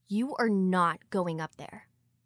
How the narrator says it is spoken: she said firmly and without a question in her voice

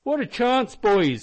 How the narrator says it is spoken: suddenly exclaimed Flinders

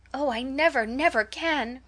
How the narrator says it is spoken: cried Mary

